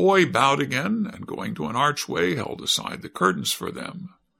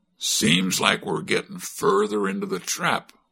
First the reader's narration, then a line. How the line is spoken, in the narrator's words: growled Cap'n Bill